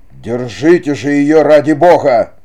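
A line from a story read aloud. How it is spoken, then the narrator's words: Angry roar. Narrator (Russian): Сердито взревел незнакомец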